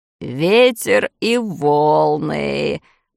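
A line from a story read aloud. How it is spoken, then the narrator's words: Muttering. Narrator (Russian): бормотал моряк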